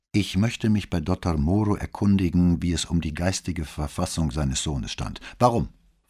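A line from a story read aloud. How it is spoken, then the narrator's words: Sharp. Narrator (German): fragte sie scharf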